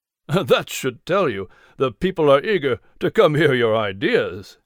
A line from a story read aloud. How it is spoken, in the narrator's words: Richard replied with a chuckle